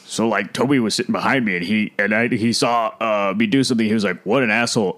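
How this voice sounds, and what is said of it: Imitates another person's voice. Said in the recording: “your impression of Seth Rogen recounting that story”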